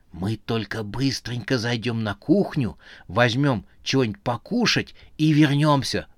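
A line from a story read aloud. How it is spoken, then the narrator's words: Whisper. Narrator (Russian): зашептал Муса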